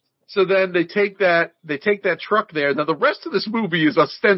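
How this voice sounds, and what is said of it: Usual voice. Nothing is said of it.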